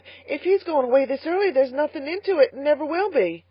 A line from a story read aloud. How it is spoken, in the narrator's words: gasped Carlotta